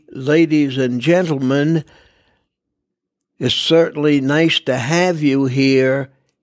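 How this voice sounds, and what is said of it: Slow, deliberate announcer delivery. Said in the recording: “You see how slow, how deliberate.”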